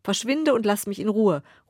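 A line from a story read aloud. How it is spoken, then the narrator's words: Calling out dismissively. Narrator (German): ruft dem Bettler zu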